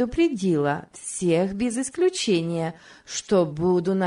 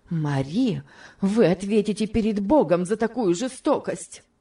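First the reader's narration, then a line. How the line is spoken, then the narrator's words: Fervent exclamation. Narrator (Russian): горячо воскликнула мисс Офелия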